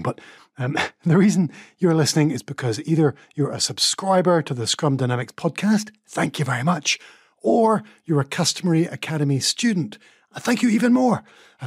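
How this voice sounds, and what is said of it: Whispering. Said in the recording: “I'm not quite sure why I'm whispering”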